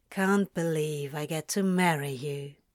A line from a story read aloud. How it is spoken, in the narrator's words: he said sleepily